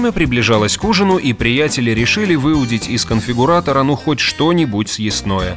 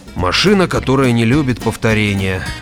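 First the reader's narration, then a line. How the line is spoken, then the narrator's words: Heavy sigh. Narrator (Russian): тяжело вздохнул Грегор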